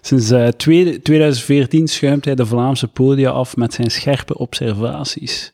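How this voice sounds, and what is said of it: Juicy Ghent Flemish accent. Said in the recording (Dutch): “een comedian uit Gent met het bijhorend sappig accent. Hoorde het al? Het sappig accent.”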